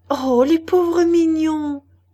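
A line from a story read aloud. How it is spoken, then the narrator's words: Exclaiming. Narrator (French): s'écria Cécile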